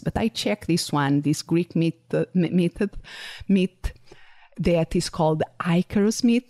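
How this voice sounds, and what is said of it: Noticeable accent with unusual pronunciations. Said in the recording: “because of my accent, sometimes I can give a very original pronunciation to some words, mainly to names”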